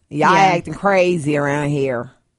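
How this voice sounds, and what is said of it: Bad put-on Southern country accent. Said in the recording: “that was the worst country accent.”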